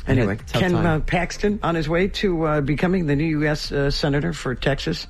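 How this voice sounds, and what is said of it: Hoarse, failing voice. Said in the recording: “I'm losing my voice. ... I noticed. ... Allergies are really, really bad.”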